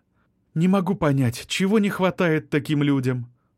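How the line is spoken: Sighing. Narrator (Russian): вздохнула Вероника

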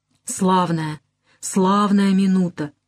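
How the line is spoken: Soft whisper. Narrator (Russian): мягко шепчет

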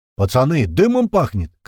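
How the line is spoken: Shouting over radio. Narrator (Russian): крикнул в рацию Упырь

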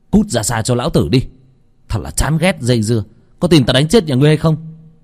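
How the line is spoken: Disgusted yelling. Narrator (Vietnamese): Trong lòng tràn đầy chán ghét mà hét lên

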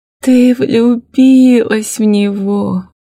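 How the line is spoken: Tender question. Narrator (Russian): ласково спрашивает свекровь

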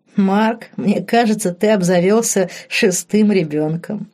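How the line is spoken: Short laugh. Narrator (Russian): хохотнул Диего

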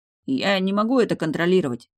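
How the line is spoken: Plain. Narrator (Russian): сказал он

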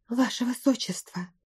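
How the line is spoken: Frightened whisper. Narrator (Russian): испуганно шепнула Каприза

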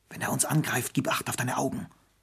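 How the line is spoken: Whisper. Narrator (German): flüsterte Lili

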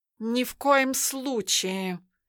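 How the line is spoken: Scornful snort. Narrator (Russian): фыркнул Тимофей

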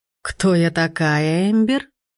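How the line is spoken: Rich, ringing singsong voice. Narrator (Russian): Она произнесла мое имя нараспев, и в ее устах оно приобрело некую сочность, наполняя стены зала хрустальным перезвоном

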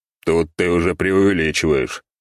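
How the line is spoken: Grumbling. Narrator (Russian): проворчал

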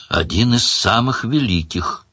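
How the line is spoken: Sad confirmation. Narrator (Russian): печально подтвердил демон

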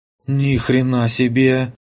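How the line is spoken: Breathless exhale. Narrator (Russian): выдохнула в канале Алена

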